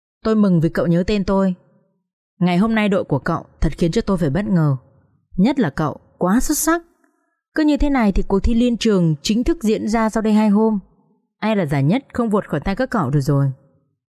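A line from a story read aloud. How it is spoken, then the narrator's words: Smiling. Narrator (Vietnamese): Duy mỉm cười và nói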